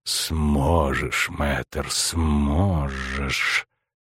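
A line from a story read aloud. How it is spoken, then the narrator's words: Through gritted teeth. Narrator (Russian): процедил император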